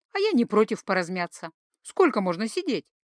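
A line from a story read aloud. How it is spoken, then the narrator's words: Cheerful. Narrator (Russian): весело сообщила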